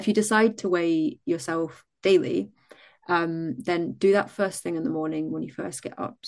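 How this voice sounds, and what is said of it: Scottish accent drifting toward English. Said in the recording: “My accent's gone a bit funky because I've gone from Scotland down to England, and it just doesn't know what to do.”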